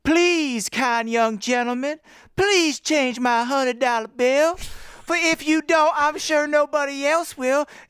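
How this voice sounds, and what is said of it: Put-on Southern accent. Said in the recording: “That's the southern accent that ... it's good, obviously. ... He put on.”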